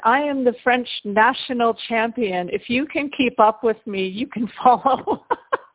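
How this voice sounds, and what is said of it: Heavy French accent. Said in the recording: “in his heavy French accent,”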